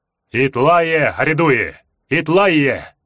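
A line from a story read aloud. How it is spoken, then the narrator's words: Painfully loud roar. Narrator (Russian): взревел голос, больно ударив по ушам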